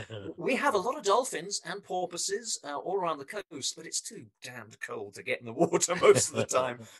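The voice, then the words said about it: English accent. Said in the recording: “I come from England originally, so you can probably tell it from my accent.”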